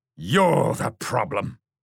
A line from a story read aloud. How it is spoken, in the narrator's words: snarled William